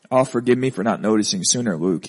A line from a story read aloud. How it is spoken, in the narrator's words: he sighed